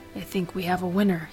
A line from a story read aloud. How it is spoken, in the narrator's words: whispered